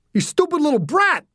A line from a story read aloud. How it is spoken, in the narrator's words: the man screamed